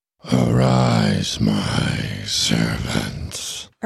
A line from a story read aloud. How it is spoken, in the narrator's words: Ernie said in that strange and painful voice